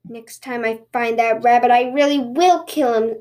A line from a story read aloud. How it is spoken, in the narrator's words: the Tanuki grumbled